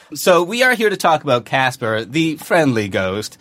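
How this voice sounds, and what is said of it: News reporter style delivery. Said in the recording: “You sound like a news reporter into it.”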